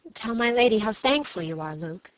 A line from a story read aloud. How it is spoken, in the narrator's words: she said